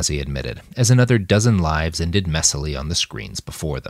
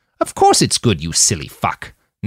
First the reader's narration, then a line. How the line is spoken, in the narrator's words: Nanayazi snapped